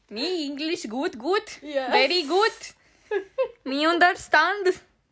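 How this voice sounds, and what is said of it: Fake mixed foreign accent. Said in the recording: “What accent is that at this point? ... it's fake Indian mixed with Russian and some Italian.”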